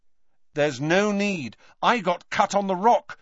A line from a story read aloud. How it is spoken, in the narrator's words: said Harry firmly